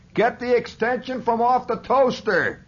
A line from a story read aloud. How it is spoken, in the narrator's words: he shouted from under the sofa